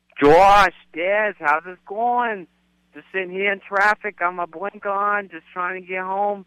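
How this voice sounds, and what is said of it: Imitated Boston accent. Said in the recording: “give me your best Boston accent”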